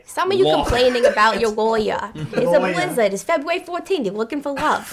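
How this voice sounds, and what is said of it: Movie trailer voice, strong New York accent. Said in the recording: “With a really strong New York accent. ... Oh, you're doing the voice of the trailer.”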